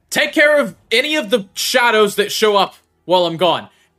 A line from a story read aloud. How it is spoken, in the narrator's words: Sox yells back to Petrin